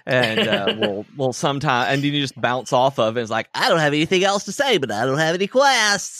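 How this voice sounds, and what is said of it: Usual voice. Nothing is said of it.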